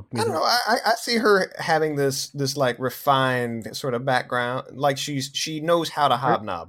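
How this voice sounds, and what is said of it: Southern accent. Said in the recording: “Are you speaking with a southern accent again?”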